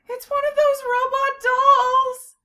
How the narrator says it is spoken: Sylphiel screamed

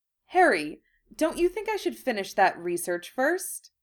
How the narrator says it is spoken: Hermione said hesitantly

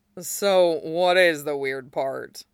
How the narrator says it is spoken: Bato chuckled

